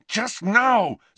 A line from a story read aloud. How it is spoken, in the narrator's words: said Harry, who was refraining from yelling with enormous difficulty